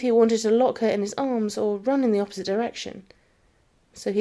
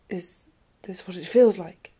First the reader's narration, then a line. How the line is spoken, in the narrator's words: he asked, his voice quiet now